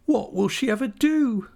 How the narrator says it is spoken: sobbed Minnie

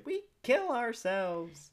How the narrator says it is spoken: the kids all shout

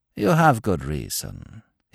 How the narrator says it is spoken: he continued, calmly

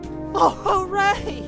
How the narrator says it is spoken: He shouted

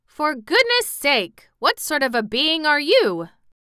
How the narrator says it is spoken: Jim exclaimed

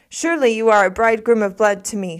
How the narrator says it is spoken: she said

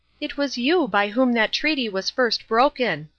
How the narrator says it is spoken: exclaimed the princess

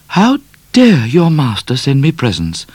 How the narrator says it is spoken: said Miss Laura, in an offended tone

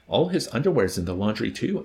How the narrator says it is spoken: answered Colonel Korn

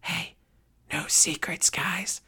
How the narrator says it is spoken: a voice whispered from behind us

